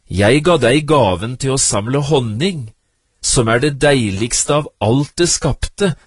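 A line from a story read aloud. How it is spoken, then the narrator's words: Plain. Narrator (Norwegian): sa vår Herre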